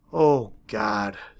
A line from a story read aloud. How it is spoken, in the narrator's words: someone sighed